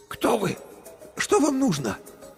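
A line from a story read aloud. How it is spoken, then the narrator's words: Hoarse, tired female voice. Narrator (Russian): Голос у нее был хриплым и уставшим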